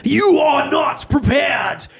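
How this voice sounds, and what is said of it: Deep booming character voice. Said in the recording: “this deep voice”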